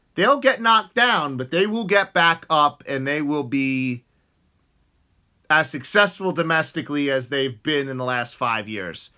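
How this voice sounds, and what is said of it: Excited, fired-up delivery. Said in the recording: “if you can tell by my voice, I'm very fired up”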